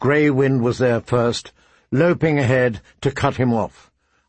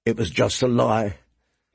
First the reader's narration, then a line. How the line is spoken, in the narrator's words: he said bitterly